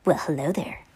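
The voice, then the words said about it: Sinister character voice. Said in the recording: “in a sinister voice”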